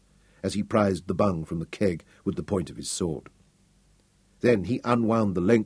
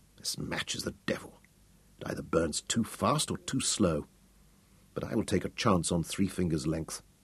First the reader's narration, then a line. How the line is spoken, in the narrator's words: muttered